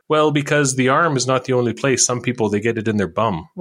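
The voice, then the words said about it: Poor put-on Filipino accent. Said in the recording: “I'm doing a terrible Filipino impression.”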